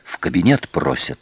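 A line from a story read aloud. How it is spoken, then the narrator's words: Breathless whisper. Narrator (Russian): потный половой и, запыхавшись, прошептал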